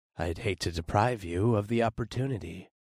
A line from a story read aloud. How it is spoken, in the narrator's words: I rumbled